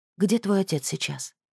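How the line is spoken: Quiet question. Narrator (Russian): спросила тихо Шемхет

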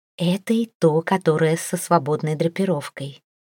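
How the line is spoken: Whispered. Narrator (Russian): прошептала

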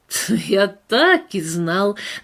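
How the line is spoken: Mocking. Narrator (Russian): насмешливо проговорил он

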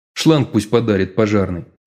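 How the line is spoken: Snorting. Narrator (Russian): хмыкнул Денис

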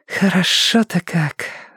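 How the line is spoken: Dreamy breathy exhale. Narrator (Russian): выдохнула Томка мечтательно

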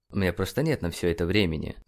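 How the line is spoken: Mumbling. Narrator (Russian): пробормотал Джеймисон

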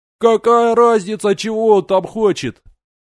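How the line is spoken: Crowd yelling. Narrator (Russian): орали ей из толпы

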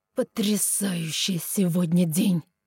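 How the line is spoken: Irritated, through clenched teeth. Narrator (Russian): Раздраженно выдохнул сквозь зубы Вилель

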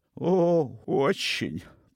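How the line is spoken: Moaning. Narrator (Russian): простонал

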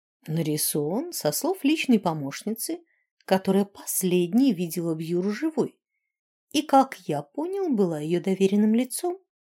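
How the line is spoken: Calm. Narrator (Russian): спокойно сказал Сьят

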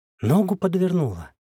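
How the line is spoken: Confused, pained. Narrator (Russian): растерянно бросила та, болезненно морщась

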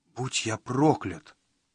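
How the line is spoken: Whispered. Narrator (Russian): прошептал он

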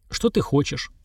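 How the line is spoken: Cold question. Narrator (Russian): холодно спросил Сергар

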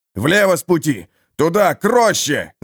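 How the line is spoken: Merchant yelling. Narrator (Russian): завопил торговец

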